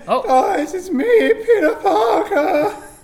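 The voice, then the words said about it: Cracking teenage character voice. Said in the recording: “I'm just a teenager, so my voice is breaking.”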